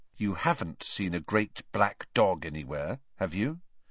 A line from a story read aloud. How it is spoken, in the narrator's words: he said in a low, serious voice